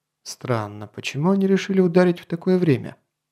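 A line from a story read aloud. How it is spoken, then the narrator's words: Surprised mutter. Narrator (Russian): удивленно пробормотал барон Шамсмели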